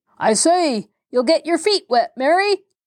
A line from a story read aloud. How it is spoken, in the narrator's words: roared Mr